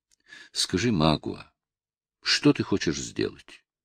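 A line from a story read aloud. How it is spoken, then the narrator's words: Strained forced calm. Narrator (Russian): произнесла Кора, делая величайшие усилия, чтобы говорить твердо и спокойно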